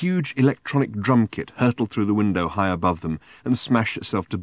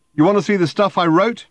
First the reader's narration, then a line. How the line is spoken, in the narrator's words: he shouted